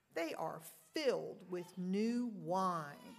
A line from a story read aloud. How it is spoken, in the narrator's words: But others sneered and said